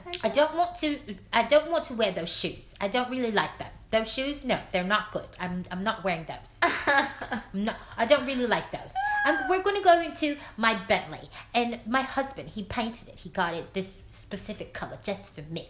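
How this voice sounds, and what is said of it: American voice with slight British accent. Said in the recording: “she is American with a slight British accent ... what accent is that? ... you already knew we was coming for that accent ... It is a little peculiar.”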